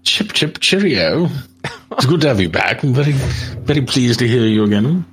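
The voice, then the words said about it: Bad put-on English accent. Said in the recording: “how bad your English accent is”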